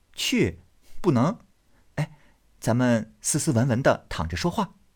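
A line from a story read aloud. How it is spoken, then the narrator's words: Laughing. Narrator (Chinese): 宝玉笑道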